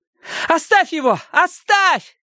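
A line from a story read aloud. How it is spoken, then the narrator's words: Urgent shout. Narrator (Russian): крикнула Робин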